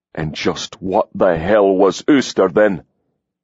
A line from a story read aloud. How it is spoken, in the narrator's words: He growled